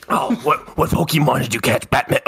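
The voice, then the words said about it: Joker-style character voice. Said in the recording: “do a Joker impression.”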